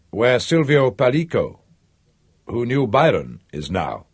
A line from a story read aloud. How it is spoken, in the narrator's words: said San Giusto in his calm voice